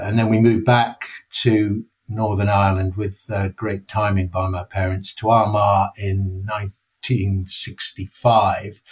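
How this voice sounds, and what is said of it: English accent. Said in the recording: “as people can tell from my accent, I was born in England.”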